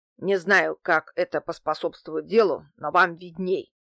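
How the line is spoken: Antique dealer grumbling. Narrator (Russian): проворчал антиквар

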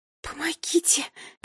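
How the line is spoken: Whisper. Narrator (Russian): прошептала

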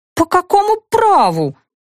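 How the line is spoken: Indignant yell, then faltering. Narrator (Russian): возмущенно завопила я, но запнулась

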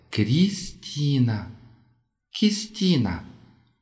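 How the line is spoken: Slow, repeated speech. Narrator (Russian): Медленно произнесла Ким и повторила

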